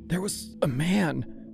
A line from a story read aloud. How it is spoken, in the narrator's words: she said, her voice strangled and thin